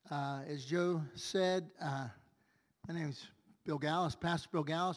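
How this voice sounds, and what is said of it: Voice affected by a cold. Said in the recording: “excuse my voice this morning. We're struggling with a cold, but this is way better than 2 days ago.”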